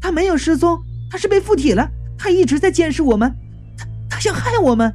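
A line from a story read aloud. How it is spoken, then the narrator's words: Agitated shout. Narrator (Chinese): 张家燕情绪激动的喊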